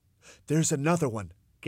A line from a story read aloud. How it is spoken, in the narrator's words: gasped Mr